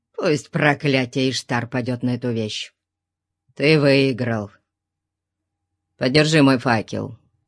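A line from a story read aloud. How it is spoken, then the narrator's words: Growl. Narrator (Russian): Нестор прорычал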